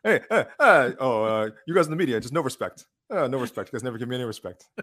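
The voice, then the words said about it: Imitates another person's voice. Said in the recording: “do your Dana White impression ... Oh, you mean this Dana White impression? ... Rodney Danafield”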